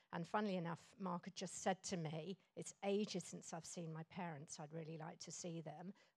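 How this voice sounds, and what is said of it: English accent. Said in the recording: “You can probably hear from my accent, I'm English.”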